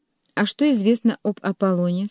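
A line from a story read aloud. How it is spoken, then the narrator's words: Plain. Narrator (Russian): спросила ее Ева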